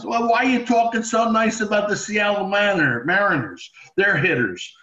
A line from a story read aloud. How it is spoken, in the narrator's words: Steinbrenner used to yell at me